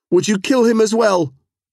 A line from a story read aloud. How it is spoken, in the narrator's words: Kachyun cried